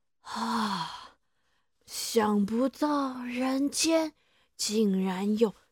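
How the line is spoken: Admiring exclamation. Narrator (Chinese): 变成老太婆的雅典娜女神忍不住要赞叹

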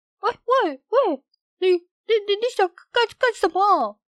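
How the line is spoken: Shrill, disbelieving shriek. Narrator (Chinese): 农夫简直不敢相信他的眼睛，他尖声高叫

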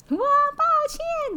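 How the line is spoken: Shouted. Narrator (Chinese): 而且大喊

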